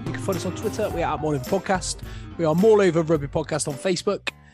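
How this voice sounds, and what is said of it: West Country English accent. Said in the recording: “all with a West Country accent”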